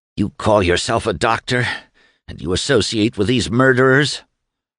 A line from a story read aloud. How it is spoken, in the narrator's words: Doremus to gasp